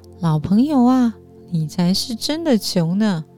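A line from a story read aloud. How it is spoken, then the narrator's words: Laughing loudly. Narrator (Chinese): 陈仲子却大笑说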